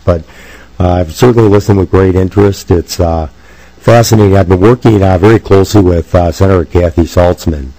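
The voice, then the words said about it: Weak, strained voice. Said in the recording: “I've lost my voice, so please excuse my voice quality. It's usually a little stronger than this.”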